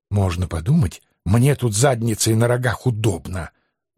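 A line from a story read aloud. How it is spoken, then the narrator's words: Indignant hiss. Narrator (Russian): Возмущенно прошипел Анцифер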